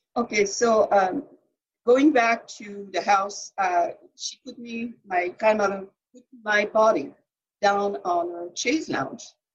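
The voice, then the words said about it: French accent in English. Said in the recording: “you're from France ... And you have an accent”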